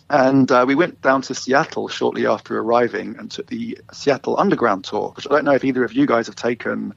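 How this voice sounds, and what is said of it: London English accent. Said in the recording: “You might hear from my accent, I'm not originally from Vancouver. I am from London, England, originally.”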